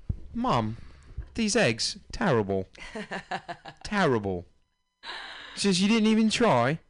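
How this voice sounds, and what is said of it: Put-on British accent. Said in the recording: “Some of these little British kids come out with an accent already... Is that just your Ringo accent?”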